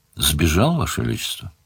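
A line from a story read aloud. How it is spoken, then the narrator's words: Said calmly. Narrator (Russian): спокойно сказал тот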